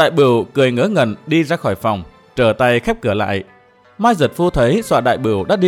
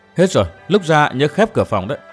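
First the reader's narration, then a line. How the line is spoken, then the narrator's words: Smiling. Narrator (Vietnamese): Cô kiếm nam mỉm cười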